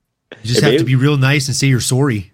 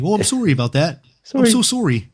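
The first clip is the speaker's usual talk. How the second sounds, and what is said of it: Put-on Canadian accent. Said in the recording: “a Canadian accent ... There it is. Yep. There it is.”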